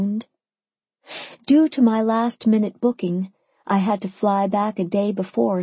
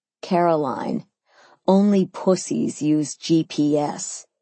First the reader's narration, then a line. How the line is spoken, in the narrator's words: he scoffed